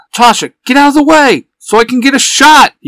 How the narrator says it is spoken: he shouts

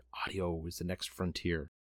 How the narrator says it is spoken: something whispered

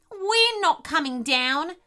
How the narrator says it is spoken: shouted the echidna bravely

